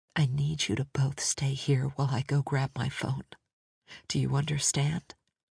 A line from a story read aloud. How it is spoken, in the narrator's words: Leaning in close, London whispered